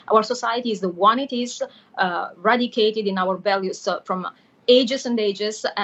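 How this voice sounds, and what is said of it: Italian accent. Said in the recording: “I want to say it in my very, very boring, no Italian accent way”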